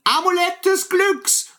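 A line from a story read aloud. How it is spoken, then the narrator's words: Shouted as loud as possible. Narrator (German): so laut wie er nur konnte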